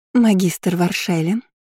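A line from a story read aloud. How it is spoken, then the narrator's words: Sweet voice. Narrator (Russian): сладким голосом, продолжила Армелия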